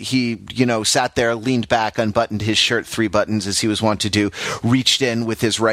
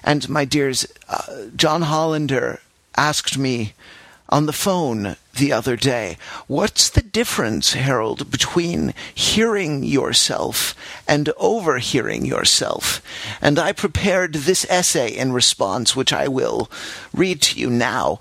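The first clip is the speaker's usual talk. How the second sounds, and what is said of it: Imitating a professor's voice. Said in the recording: “I'm now doing his voice.”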